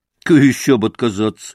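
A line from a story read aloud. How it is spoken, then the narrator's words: Deep, embarrassed but jaunty. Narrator (Russian): пробасил Ракитин, видимо, сконфузившись, но молодцевато прикрывая стыд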